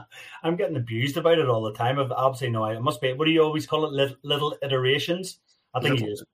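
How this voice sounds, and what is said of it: North American drawl. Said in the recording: “The North American accent is absolutely outstanding ... You've definitely got an accent. ... you've got lots of North American drawl in your voice now.”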